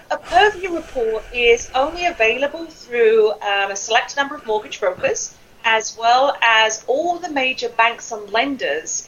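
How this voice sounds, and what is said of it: Speaks with a noticeable accent. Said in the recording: “I have to spell it because with this accent, it could be anything”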